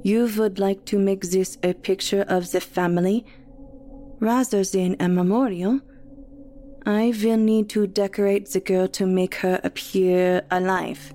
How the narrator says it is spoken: says in a thick German accent

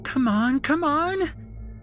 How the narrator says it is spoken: Shelby squealed

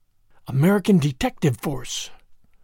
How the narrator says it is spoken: she hissed

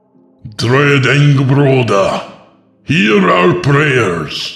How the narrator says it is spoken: the priest shouted, no longer singing

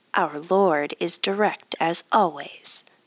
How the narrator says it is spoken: said Yasutoki

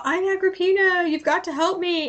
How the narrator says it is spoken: a lady, wanting to be rescued, screamed out

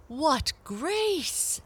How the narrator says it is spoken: exclaimed the caterpillars

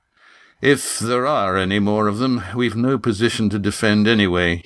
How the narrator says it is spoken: he said wearily

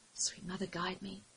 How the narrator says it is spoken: Ashime whispered under her breath

